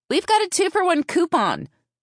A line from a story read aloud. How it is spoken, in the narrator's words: she yelled